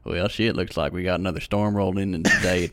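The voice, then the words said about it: Put-on American Southern drawl. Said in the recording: “adopting that accent all the time ... American Southern accents ... slow drawl”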